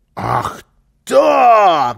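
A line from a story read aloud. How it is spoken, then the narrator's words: Shouted. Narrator (Russian): закричал Карлсон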